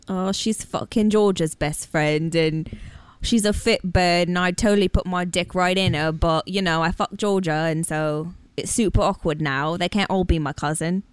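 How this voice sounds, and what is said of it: Put-on British accent. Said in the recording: “That's a very good accent. ... Oh, would you like a portion of fish and chips?”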